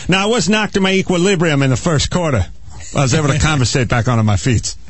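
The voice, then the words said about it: Imitates another person's voice. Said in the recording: “Are you doing your impression of Tom Brady there? ... I was doing Feely, actually.”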